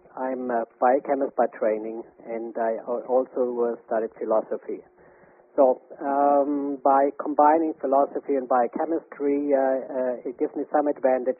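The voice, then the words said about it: German accent. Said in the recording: “as you might have noticed from my accent, I'm originally from Germany”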